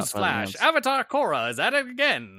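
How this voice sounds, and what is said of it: Mid-Atlantic newsreader accent. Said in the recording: “Can I hear your best mid-Atlantic accent right now? ... Oh, I can do a pretty good one actually.”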